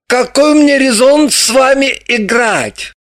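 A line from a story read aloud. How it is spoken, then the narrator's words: Exclamation. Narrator (Russian): Далила воскликнула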